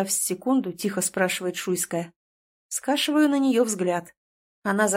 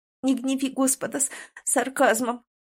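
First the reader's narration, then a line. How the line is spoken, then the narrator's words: Sobbing, stern. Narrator (Russian): всхлипнув, сурово Лиза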